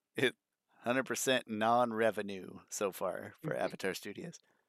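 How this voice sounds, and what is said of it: Strained voice close to cracking. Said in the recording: “My voice is on the verge of cracking up here”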